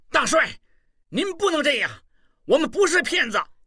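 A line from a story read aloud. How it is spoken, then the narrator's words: Angry. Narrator (Chinese): 望柏神情一变，怒道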